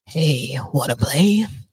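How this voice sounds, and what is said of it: Creepy horror doll character voice. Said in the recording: “in my best Chucky voice”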